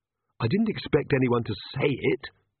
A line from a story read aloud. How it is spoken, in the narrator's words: Magrat hissed